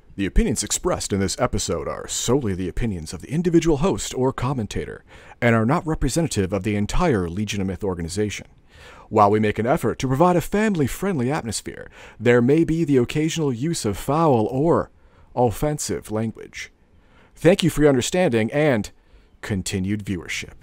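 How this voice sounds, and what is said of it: Announcer voice. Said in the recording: “I got to do the announcer voice.”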